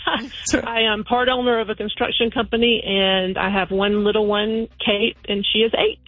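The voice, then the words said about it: Georgia Southern twang accent. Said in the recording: “I love your accent. Like, I love the twang. ... I'm actually from Georgia ... I think it's stronger than usual. ... it's a beautiful, beautiful accent. You sound really nice.”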